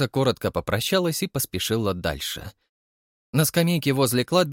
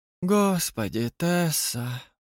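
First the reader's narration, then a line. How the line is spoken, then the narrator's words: Lazy drawl. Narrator (Russian): протянул он лениво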